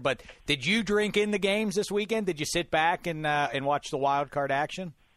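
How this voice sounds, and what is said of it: Hoarse, partly lost voice. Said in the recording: “You can hear my voice. I lost my voice a little bit.”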